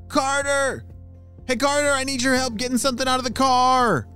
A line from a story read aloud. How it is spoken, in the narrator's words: shouted one of his parents